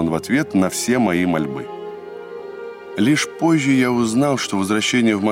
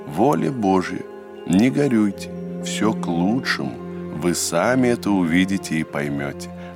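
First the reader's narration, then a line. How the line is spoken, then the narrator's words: Old man speaking gently. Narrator (Russian): ласково сказал мне старец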